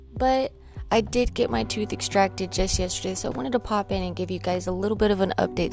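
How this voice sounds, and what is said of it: Impaired, not-quite-normal speaking voice. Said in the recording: “as you can tell, I don't have my radio voice back yet... as soon as I am able to talk properly”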